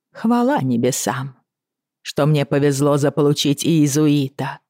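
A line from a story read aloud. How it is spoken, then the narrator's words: Dry. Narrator (Russian): сухо проговорила она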